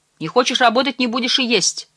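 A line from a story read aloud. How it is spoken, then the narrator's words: Curt and angry. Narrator (Russian): сердито отрезал Чихан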